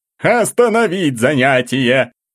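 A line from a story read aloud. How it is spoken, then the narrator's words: Shouted. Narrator (Russian): крикнул директор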